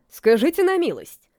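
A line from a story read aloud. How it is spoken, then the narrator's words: Snorting. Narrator (Russian): фыркнул вице-канцлер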